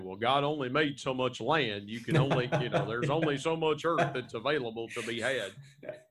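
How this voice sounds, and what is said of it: Put-on West Virginia accent. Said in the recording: “In my best West Virginia accent there.”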